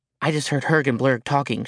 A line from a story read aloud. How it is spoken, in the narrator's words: she whispered